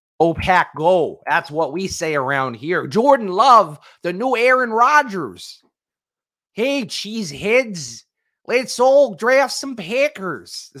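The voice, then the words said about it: Put-on Wisconsin accent. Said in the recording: “That's not a bad impression, right? I think that's okay. ... I hope I'm not offending the random passersby from Wisconsin who go, that's not how we talk. ... like a big hunk of cheese in their mouth”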